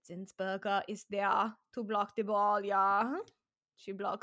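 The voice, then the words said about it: Put-on Austrian accent. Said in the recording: “Is that your Austrian accent? ... Yeah, it is.”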